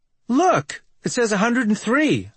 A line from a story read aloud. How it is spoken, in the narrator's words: I blurt out